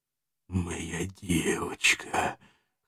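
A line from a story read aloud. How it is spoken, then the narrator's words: Hoarse drawl, kidnapper. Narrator (Russian): хрипло протянул похититель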